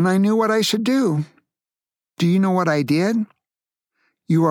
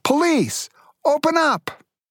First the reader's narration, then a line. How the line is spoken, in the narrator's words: someone shouting